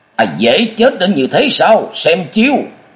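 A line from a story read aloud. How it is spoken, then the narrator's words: Sudden sinister roar. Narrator (Vietnamese): Nhậm Lợi Thân bất thần chợt gầm lên gian dội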